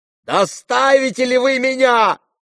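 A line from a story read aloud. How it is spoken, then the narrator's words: Shouting. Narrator (Russian): закричала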